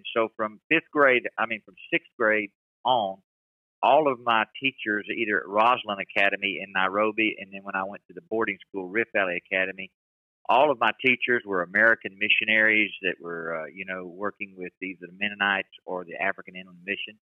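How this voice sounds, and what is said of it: American accent with Southern twang. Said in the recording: “my American accent stuck from from being in Clinton. And I've always had a Southern twang since then”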